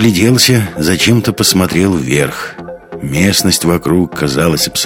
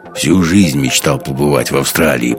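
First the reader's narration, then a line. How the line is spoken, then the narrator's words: Mutter. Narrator (Russian): пробурчал Гумилев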